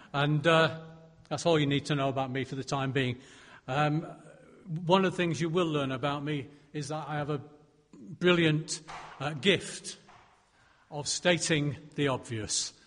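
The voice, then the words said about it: Northern English accent. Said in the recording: “I've got a funny accent, because originally I originate from Stockport, and that's up north”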